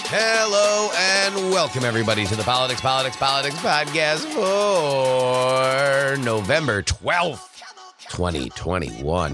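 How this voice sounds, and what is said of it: Unusually low, cold-affected voice. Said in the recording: “recovering from a bit of a cold. That's why the timbre of my voice is even lower than usual”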